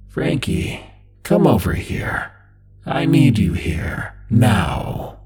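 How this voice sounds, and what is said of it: Distorted, buzzing imitated father's voice. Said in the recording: “It was like a good impression of his voice, spoken through an electric fan. ... It sounded angry now, and no longer like my dad at all.”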